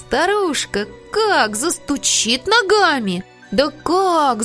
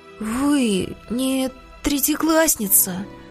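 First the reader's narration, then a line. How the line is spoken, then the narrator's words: Timid whisper. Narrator (Russian): прошептал Петя робко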